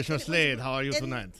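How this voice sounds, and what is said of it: Put-on French accent. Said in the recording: “I'll do like a French accent”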